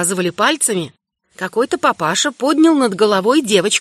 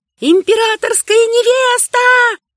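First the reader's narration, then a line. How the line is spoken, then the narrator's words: Shouting. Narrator (Russian): тут же кричали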